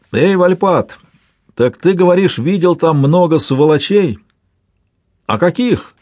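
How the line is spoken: Shout lost in wind. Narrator (Russian): крикнул Блэр, и новый порыв ветра подхватил и унес его слова

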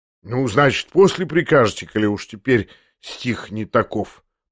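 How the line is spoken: Drawling grinning mutter. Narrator (Russian): пробормотал еще длиннее, ухмыляясь

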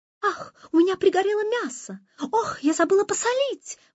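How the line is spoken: High-pitched exclaiming. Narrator (Russian): восклицал он тонким голосом

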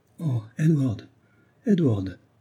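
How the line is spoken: Exclaiming. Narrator (French): s'écria

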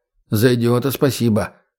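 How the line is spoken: Snort. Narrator (Russian): хмыкнул егерь

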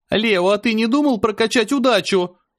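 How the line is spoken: Straining yell. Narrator (Russian): заорала Аня, едва не сорвав голос

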